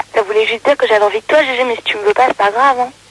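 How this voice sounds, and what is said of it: Hoarse, broken voice. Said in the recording (French): “j'ai juste la voix cassée ... t'as ta voix cassée”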